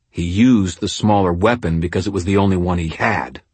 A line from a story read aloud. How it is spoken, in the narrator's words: I said, my voice harsh